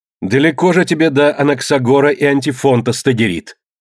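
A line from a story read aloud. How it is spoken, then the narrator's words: Furious shout. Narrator (Russian): вне себя крикнула Гесиона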